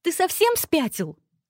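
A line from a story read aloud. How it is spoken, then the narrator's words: Yell. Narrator (Russian): завопила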